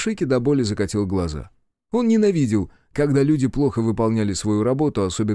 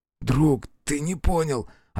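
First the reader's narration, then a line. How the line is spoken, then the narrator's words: Desperate whisper. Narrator (Russian): отчаянно шептал он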